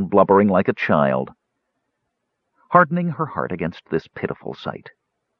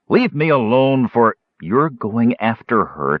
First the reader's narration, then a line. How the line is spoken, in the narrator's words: Tika said firmly